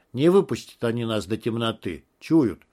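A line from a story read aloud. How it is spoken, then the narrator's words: Plain. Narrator (Russian): сказал Егор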